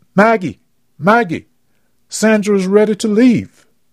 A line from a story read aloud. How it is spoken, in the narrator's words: Missy yelled to her daughter